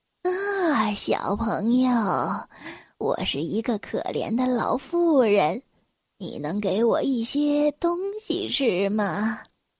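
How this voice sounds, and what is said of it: Very gentle old woman's voice. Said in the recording (Chinese): “用她最温柔的声音说”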